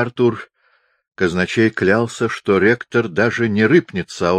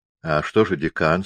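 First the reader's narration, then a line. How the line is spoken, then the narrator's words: Plain question. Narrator (Russian): спросил кухмистер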